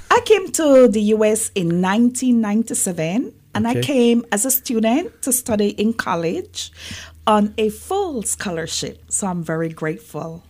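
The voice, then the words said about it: Belizean accent. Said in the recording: “as you can tell from the accent. No, I was born and raised in Belize... that's what the accent is about.”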